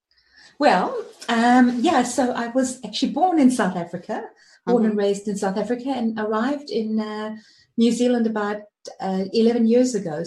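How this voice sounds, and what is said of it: Mixed South African and New Zealand accent. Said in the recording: “the African Kiwi, you can hear that the accent is not quite Kiwi... it's kind of like a mixture.”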